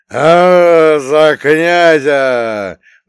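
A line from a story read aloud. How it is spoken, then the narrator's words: Roaring crowd. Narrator (Russian): взревели люди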